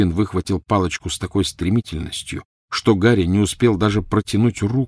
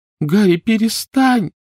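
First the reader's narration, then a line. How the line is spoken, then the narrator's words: Pleading. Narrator (Russian): взмолилась Гермиона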